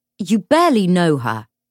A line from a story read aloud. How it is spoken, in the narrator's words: James snapped